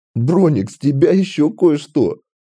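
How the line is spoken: Speaking through laughter. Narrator (Russian): сквозь смех проговорил он

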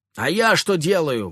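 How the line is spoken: Shouting at top of lungs. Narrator (Russian): во все горло выкрикнула Мальвина

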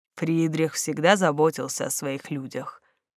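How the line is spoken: Quiet, wistful. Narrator (Russian): негромко проговорил Малькольм, и его глаза затуманились

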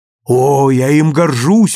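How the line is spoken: Exclaiming mother. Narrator (Russian): воскликнула мать

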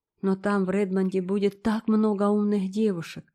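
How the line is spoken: Sighing. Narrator (Russian): вздохнула Диана

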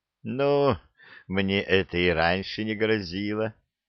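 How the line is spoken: Bitter laugh. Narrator (Russian): горько рассмеялась она

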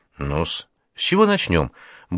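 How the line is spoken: Cheerful clucking. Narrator (Russian): бодро кудахчет она

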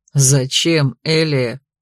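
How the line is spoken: Mocking. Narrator (Russian): насмешливо повторил он

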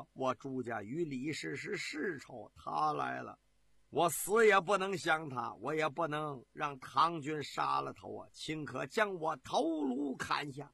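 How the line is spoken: Anxious soft sigh. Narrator (Chinese): 朱有贞稀稀惶惶的轻叹了一声，对黄埔林说

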